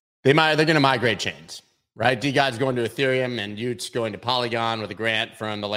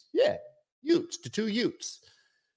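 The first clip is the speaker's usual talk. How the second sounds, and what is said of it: Bad put-on Brooklyn accent. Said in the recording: “It's a terrible Brooklyn accent I just did”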